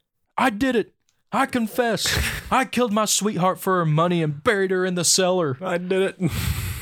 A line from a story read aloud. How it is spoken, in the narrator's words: screamed